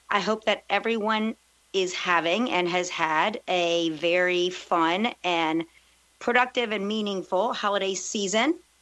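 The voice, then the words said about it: Slightly raspy voice. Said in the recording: “I'm recovering from a cold, so my voice is a little more raspy than usual.”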